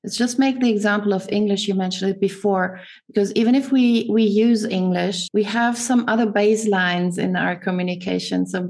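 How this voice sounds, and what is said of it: Non-British, continental European-tinted English accent. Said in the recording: “my way to use English is tinted with a little bit of German, a bit of Italian, a bit of French... I don't have a British accent. So you hear it from the first time I say something”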